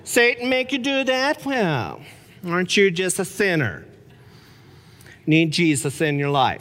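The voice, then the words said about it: Prim, judgmental church lady voice. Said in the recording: “Church Lady? ... my impersonation”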